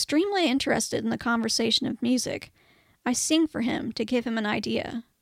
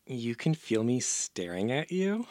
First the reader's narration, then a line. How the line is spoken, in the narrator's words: I scoff